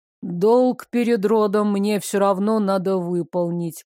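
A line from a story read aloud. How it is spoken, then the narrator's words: Muffled low voice. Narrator (Russian): глухо проговорил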